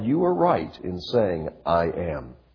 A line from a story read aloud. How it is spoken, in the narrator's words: Then they said